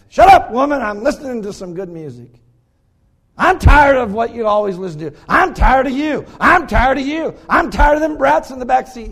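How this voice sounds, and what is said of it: Yelling angrily. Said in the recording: “you're yelling”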